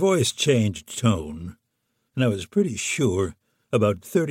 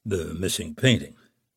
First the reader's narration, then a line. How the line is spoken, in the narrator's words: muttered